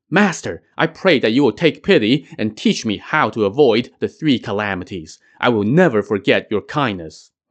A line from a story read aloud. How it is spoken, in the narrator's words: pleaded